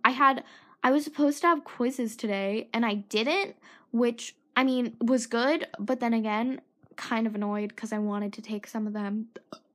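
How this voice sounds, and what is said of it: Tired, strained voice. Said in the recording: “my throat is getting sore, my voice is getting tired, and I think I'm sick”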